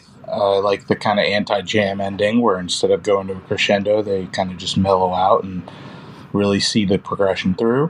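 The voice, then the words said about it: New York accent. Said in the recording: “you guys are from Queens. Is that a real New York accent? No, I'm just kidding. I know it is.”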